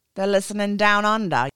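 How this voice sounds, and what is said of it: Weak put-on Australian accent. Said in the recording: “the Aussies ... Not my best accent”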